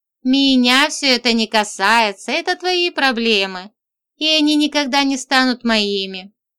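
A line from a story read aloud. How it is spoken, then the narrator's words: Laughing declaration. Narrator (Russian): засмеялась и заявила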